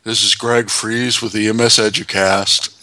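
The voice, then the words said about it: Imitates another person's voice. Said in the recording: “I'm doing my best Patrick the Starfish impression ... making fun of you”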